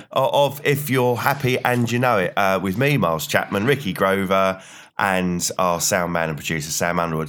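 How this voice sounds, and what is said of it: Low, slightly raspy voice from cold. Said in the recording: “you've got a cold at the moment, and you've got that sort of little bit of a rasp to it ... My voice is very low at the moment”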